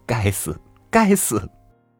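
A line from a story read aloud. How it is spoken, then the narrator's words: Laughing scolding. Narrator (Chinese): 舅母笑骂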